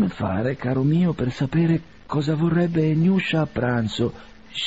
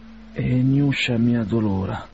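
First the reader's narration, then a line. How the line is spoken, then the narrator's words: Quiet complaint. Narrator (Italian): si lagnava piano con la moglie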